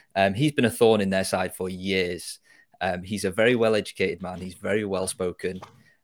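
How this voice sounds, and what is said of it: UK accent. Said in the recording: “If you can't tell by the accent, by the way, to anybody who's listening, that I'm from the UK.”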